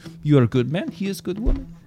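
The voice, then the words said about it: Put-on Fiddler on the Roof accent. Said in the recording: “what accent was that?... That's Fiddler on the Roof, right?... It is actually a line from Fiddler on the Roof. So I don't know if Jewish is the right word... that's the accent he has”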